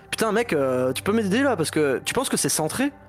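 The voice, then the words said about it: Put-on heavy English accent. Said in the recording (French): “avec un accent anglais de ouf en plus”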